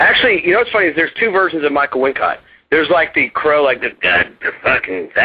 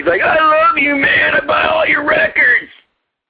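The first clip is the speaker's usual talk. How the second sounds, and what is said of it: Imitates another person's voice. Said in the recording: “could you do like a Michael Wincott impersonation? Oh, that's that man's voice. I love that man's voice.”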